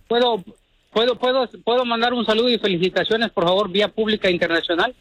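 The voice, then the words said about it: Formal radio announcer voice. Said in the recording (Spanish): “Tiene voz de locutor... ¡Es locutor este vato!... Es muy formal.”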